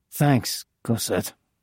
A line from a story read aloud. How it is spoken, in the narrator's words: I muttered bitterly